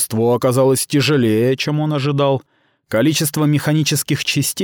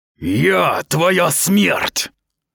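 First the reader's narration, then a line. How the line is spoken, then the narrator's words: Impatient attacking snarl. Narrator (Russian): рыкнул атакующий Сахал, которому надоело ждать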